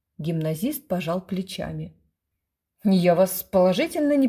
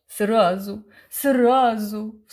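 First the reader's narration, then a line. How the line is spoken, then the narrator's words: Woman's sob. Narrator (Russian): всхлипнула тетенька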